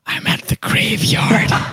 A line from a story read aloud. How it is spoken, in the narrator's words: I could hear like a faint whisper